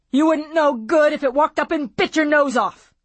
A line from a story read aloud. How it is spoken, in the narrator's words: He yelled, not caring